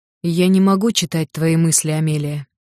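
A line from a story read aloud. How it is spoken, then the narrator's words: Plain. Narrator (Russian): сказал он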